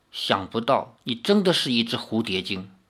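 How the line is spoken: Murmuring. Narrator (Chinese): 林月如喃喃地说

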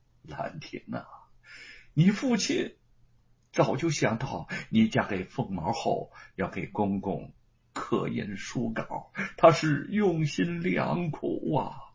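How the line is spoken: Soft, quiet voice. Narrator (Chinese): 叶云轻声的说

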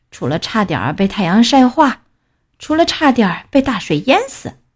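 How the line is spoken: Tired murmur. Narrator (Chinese): 他疲倦的喃喃自语

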